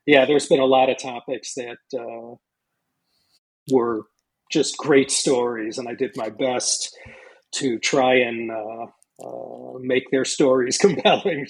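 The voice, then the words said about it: American Chicago accent. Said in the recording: “listeners can hear from your accent that you're likely American ... from this accent, I'm from Chicago”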